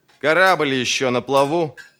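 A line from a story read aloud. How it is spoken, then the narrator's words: Booming. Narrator (Russian): прогремел Баяс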